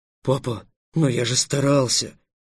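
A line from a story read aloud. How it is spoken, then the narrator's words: Exclamation. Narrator (Russian): воскликнул Эллен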